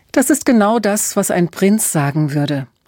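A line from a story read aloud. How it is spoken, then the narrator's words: Laughing. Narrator (German): lachte Emma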